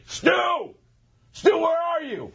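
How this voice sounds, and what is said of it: Yelling, shouting a name. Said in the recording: “I'm yelling,”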